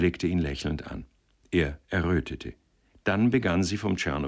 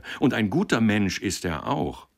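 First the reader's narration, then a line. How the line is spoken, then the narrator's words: Called out. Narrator (German): rief er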